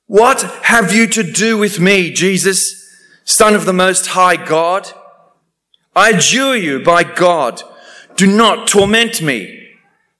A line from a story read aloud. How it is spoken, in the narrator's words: And he shouted at the top of his voice